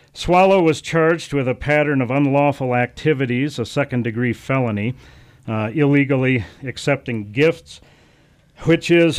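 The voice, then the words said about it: Out of breath speaker. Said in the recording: “I'm a little out of breath catching up to this... we had you running in the door here”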